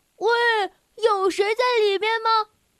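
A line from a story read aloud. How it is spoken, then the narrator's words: Calling down loudly. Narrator (Chinese): 小猪 朝下面喊道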